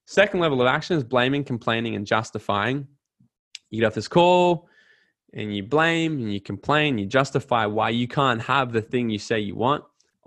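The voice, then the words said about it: Australian accent. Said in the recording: “That Aussie guy has a funny accent”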